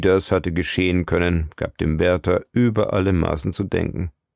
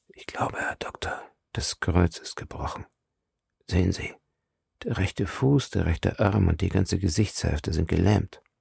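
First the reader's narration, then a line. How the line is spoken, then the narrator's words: Quiet. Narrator (German): Der Wärter sagte leise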